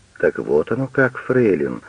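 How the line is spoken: Calm. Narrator (Russian): спокойно говорит Пагель

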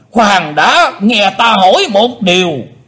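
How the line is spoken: Shouted. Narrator (Vietnamese): Phi Lôi Ngũ Ôn đã quát

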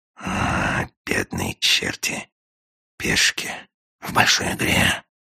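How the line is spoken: Sighing whisper. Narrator (Russian): со вздохом прошептал агент

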